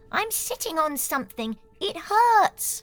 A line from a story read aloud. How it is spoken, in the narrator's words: exclaiming